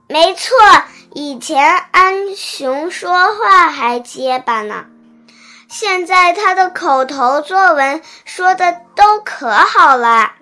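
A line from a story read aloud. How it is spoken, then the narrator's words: Loud. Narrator (Chinese): 牛牛大声说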